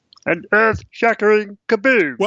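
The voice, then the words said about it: Imitated cartoon voice. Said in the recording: “pretty good impression”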